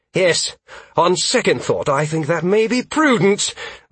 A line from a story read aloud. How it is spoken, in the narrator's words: the maid shouted back